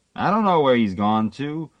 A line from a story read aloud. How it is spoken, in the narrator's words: Manager said crossly